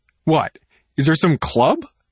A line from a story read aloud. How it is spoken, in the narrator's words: I ask, my voice starting to crack